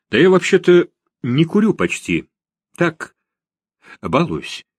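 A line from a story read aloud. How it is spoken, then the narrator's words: Hesitant start. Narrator (Russian): неуверенно начал Лев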